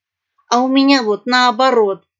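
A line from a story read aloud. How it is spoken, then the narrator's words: Snapping cat. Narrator (Russian): огрызнулась кошка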